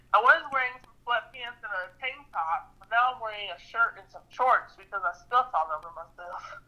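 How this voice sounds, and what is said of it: Strange put-on accent. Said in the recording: “such a crazy accent”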